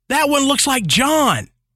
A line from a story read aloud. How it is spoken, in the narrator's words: Suddenly, one of the girls yelled